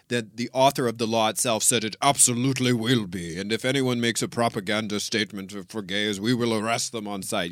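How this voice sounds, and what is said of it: Put-on Russian accent. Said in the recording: “Russian dickhead accent ... I really loved your impersonation of the Russian.”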